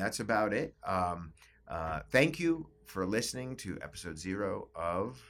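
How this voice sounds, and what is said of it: Usual voice. Nothing is said of it.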